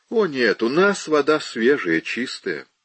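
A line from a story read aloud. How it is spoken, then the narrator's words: Dry, detached. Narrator (Russian): сухо проговорила, как бы не отвечая за то, что делается в других домах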